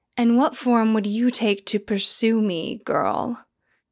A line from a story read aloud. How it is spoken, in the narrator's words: Iamene sighed